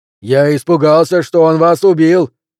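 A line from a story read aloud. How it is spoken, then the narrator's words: Shouting over rushing wind. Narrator (Russian): прокричал Пелвис сквозь поток горячего воздуха, врывавшегося в окно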